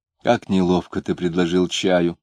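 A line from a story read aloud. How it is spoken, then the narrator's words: Soft tone. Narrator (Russian): мягким тоном заметила Варвара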